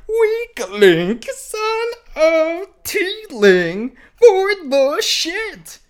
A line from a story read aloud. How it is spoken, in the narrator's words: she said in a princess voice